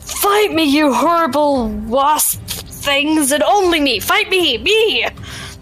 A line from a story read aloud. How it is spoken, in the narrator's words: shout